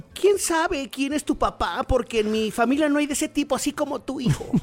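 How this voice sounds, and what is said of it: Man speaking in a woman's voice. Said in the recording (Spanish): “¿Puedes echártelo, en voz de mujer?”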